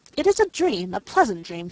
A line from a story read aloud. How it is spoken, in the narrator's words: he exclaimed, breaking forth again, after a few minutes' musing